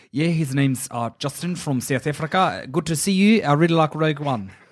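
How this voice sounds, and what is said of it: Put-on Kiwi-sounding accent. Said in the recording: “That's a Kiwi accent, mate.”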